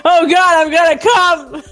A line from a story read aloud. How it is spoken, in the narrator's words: Tim screamed